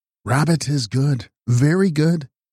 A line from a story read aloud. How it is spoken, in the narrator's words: the ancient quavered